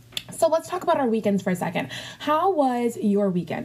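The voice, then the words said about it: Very fast speech. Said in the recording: “I'm talking very fast today.”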